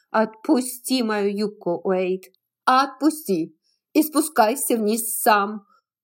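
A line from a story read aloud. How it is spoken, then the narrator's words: Angry shout. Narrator (Russian): сердито крикнула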